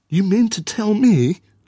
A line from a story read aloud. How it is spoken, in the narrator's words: she exclaimed